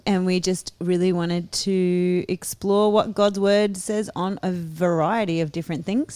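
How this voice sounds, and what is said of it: Australian accent. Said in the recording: “We're obviously Australian. You can probably tell by our accents.”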